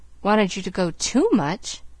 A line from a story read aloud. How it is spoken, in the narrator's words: Pollyanna sighed again